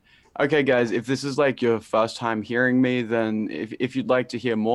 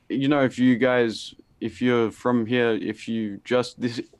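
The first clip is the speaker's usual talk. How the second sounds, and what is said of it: Stuttering, halting speech. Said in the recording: “I'm stuttering,”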